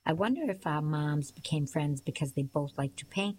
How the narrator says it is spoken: I said

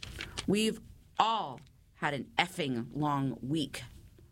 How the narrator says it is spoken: Rochelle spat back

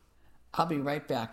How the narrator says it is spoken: I said

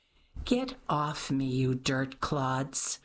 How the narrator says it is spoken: groaned Sebastian

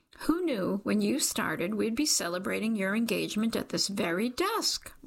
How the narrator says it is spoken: Rhonda squeaks

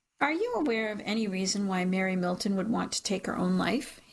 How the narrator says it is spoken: he says

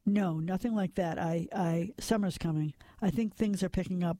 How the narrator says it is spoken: Lars said

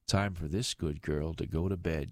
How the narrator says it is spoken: she said

